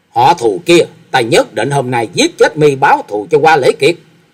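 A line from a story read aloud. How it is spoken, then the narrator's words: Tearful, furious scream. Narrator (Vietnamese): Hạ quanh quanh càng giận dữ, tay phải gạt nước mắt nhễ nhãi ở trên mặt, thét lớn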